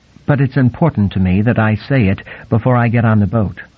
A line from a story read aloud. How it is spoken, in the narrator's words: she began in a firm but pleasant voice